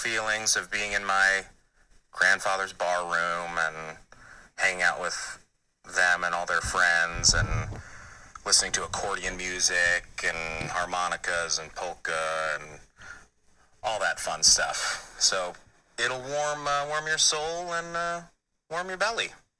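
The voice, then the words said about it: Strong Midwestern Scandinavian-tinged accent. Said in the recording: “a great character voice ... It's just such a crazy accent ... That's Midwest ... I think that actually is a real one ... that sort of Norwegian Scandinavian thing, but also, yeah, like Croatian and Italian”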